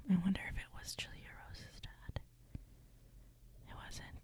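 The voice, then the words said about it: Whispering. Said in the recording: “I'm whispering. Why am I whispering?”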